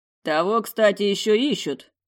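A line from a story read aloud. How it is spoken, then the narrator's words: Resonant bass voice. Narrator (Russian): звучным басом сообщает друг Нинель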